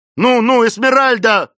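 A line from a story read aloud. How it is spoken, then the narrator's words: Shout. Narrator (Russian): закричал Клейтон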